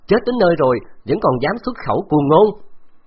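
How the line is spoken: Shouted back. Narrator (Vietnamese): Đông Dục Cốc quát trả

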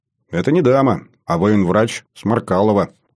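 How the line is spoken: Exaggerated stern tone. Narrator (Russian): утрированно, суровым тоном произнес я

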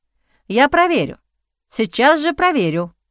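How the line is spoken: Exclaiming. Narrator (Russian): воскликнул Шу

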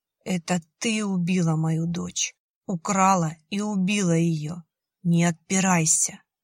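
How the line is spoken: Dull flat voice. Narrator (Russian): тусклым голосом проговорила эта ненормальная

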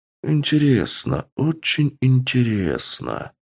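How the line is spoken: Muttered. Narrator (Russian): пробормотал Пуп

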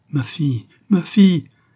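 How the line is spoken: Anguished mother's cry. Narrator (French): s'écria une mère brusquement séparée de son enfant

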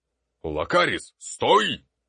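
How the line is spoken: Shrill, sharp shout. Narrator (Russian): прокричал Ботлер, еще более пронзительно и резко, чем раньше

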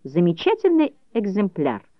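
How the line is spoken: Thoughtful. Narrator (Russian): говорил Дагги, задумчиво кивая

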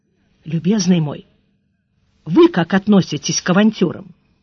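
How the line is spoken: Quiet question. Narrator (Russian): Сварог тихонько спросил

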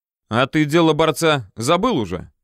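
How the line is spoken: Snorting grunt. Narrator (Russian): хмыкнул тут же и Горохов

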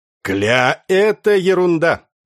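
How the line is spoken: Cheerful. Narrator (Russian): весело сказал Яныш

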